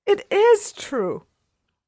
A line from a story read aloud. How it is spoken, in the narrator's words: she gasped